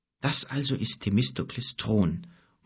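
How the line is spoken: Muttering under breath. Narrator (German): murmelte er halblaut

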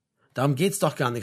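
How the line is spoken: Plain. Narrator (German): sagte Frank

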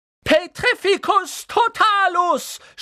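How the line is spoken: Shouted spell. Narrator (German): schrie sie

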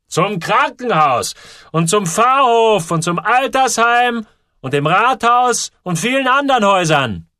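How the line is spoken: Roaring back. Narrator (German): brüllte er zurück

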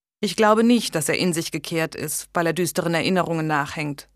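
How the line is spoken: Plain. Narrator (German): sagte Jasper

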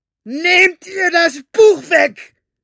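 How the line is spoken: Shouted. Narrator (German): schrie Capricorn

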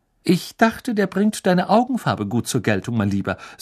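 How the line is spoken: Plain. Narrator (German): sagte Mrs

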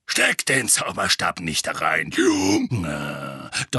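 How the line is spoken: Thundering voice. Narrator (German): donnerte Moody

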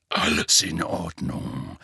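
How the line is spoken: Murmured. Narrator (German): murmelte er

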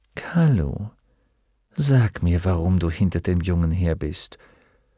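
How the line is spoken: Whisper. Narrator (German): flüsterte Mrs

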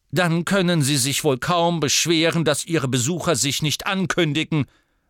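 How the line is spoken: Sharp voice. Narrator (German): sagte Ogden scharf

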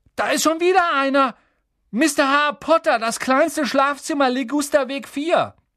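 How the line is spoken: Calling out. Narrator (German): Dann rief er

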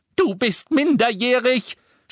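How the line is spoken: Shouted. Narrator (German): schrie Mrs

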